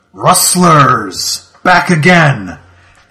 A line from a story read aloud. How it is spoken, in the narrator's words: A somewhat feminine voice shouts out